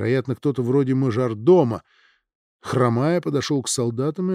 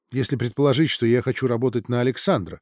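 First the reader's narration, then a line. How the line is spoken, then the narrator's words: Plain. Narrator (Russian): сказала Бриджит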